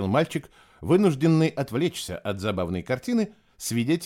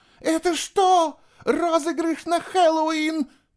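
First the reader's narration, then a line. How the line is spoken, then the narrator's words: Shouting. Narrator (Russian): закричала она на Фишера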